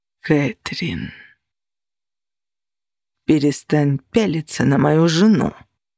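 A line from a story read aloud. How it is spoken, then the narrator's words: Growl, barely contained fury. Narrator (Russian): С еле сдержанной яростью прорычал Костя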